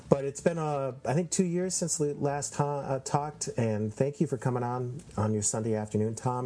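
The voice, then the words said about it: Congested, wheezy voice. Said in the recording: “my allergies really kicking in ... hear it in my voice ... I'm wheezing and sort of congested right now”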